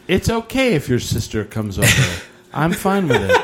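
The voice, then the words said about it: Smooth slow jam voice. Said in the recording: “everyone's best like slow jam voice”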